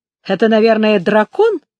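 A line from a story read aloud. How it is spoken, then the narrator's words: Persistent, mocking tone. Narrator (Russian): не унималась она … голос ее звучал по-прежнему насмешливо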